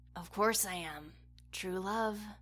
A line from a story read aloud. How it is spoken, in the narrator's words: he whispered out, a wide grin and glassy eyes that seemed barely able to focus